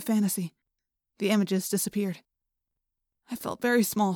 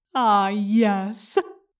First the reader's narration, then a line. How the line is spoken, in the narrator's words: the Yerk said, and laughed